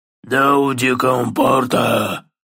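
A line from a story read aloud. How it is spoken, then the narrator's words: Troll's roar. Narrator (Russian): прорычал тролль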